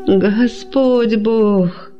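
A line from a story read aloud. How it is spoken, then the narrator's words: Pleading under torture. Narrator (Russian): взмолилась одна из них под пытками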